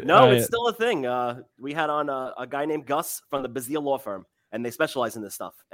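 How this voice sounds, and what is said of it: Long Island New York accent. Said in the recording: “the accent.”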